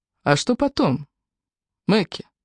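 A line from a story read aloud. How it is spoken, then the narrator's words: Plain. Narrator (Russian): спросил его Сэм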